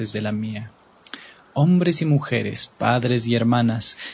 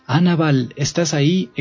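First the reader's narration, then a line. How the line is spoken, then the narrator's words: Exclaimed. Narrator (Spanish): exclamé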